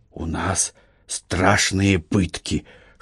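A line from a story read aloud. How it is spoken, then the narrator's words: Whisper, young warrior. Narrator (Russian): шепотом сказал молодой воин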